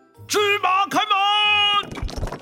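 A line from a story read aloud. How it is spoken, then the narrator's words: Loud shout. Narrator (Chinese): 他大喊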